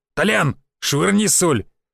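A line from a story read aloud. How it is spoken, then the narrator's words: Businesslike man's voice. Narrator (Russian): деловито сказал мужик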